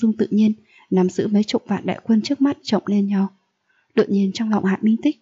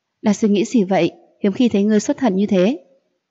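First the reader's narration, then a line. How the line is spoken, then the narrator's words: Smiling. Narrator (Vietnamese): Diệp Ly mỉm cười rồi nói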